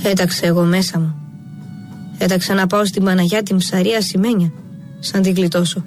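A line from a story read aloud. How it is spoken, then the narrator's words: Plain. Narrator (Greek): είπε ο Στάθης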